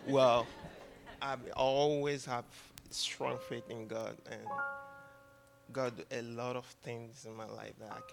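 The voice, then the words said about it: Speaker with a noticeable accent. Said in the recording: “I got a little bit accent.”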